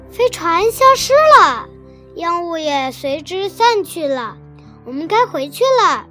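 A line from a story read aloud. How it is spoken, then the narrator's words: Loud shouting. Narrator (Chinese): 卡梅利多和贝里奥 大声喊道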